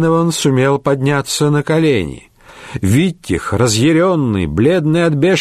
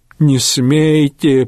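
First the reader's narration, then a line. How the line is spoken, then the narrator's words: Moaning. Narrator (Russian): простонал Рейнован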